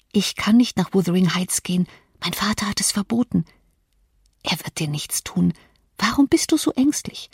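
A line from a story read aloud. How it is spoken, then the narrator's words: Whisper. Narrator (German): flüsterte Kathleen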